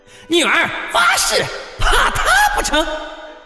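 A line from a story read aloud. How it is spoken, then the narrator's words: Agitated old woman shouting. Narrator (Chinese): 西老太跳着脚喊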